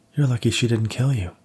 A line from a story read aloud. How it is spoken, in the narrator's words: Diane exclaimed